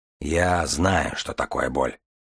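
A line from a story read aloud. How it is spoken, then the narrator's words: Muffled low voice. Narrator (Russian): глухо проговорил Дар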